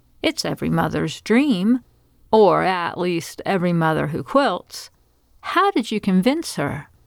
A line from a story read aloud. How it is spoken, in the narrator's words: Sheila laughed